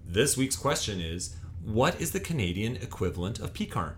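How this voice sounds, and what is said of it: Hammed-up game show host voice. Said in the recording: “you put your game show voice on just then ... You put a game show voice on ... I got to ham it up a little bit”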